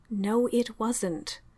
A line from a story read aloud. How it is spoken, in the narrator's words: Mycroft inserted evenly